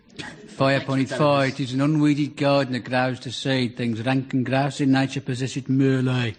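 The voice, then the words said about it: Put-on rural Warwickshire accent. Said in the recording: “I'm speaking an authentic Warwickshire Shakespearean accent ... That's not Shakespeare, that's Benny from Crossroads again ... An authentic Stratford-upon-Avon brogue”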